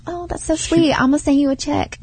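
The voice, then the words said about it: Put-on ghetto accent. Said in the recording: “I don't know why I gave her such a ghetto accent.”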